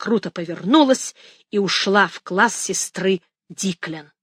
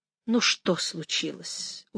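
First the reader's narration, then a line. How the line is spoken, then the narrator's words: Tired female question. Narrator (Russian): устало спросила она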